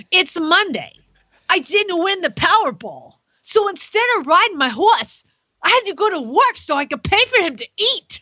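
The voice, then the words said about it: Put-on Brooklyn accent. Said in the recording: “she's very Brooklyn, so you have to say this in a very Brooklyn accent, but I can't talk like that, but I'll try”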